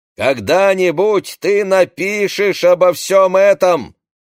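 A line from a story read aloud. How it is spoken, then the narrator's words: Shouting. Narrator (Russian): кричал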